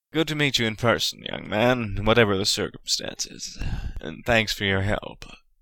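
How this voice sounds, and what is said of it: American drawl character voice. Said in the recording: “said Peyton in his American drawl”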